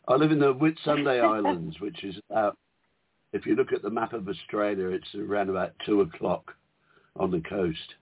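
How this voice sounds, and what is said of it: Australian or New Zealand accent. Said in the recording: “you're from New Zealand, Australia. I always forget because I love your accent”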